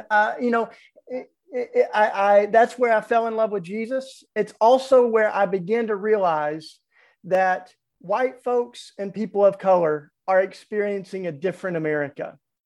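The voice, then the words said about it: Southern US accent. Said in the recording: “I can't hide the Southern accent.”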